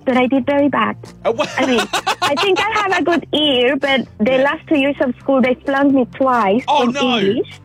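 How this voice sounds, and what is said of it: Chilean Spanish accent speaking English. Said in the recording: “I was in Chile, so we speak Spanish there. Hence my accent.”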